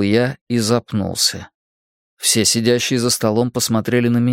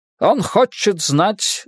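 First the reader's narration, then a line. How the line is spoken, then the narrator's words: Shouting. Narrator (Russian): закричал Фриц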